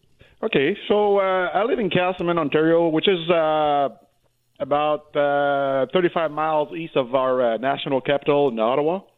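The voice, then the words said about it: French-Canadian accent. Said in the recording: “that's why you hear that French accent”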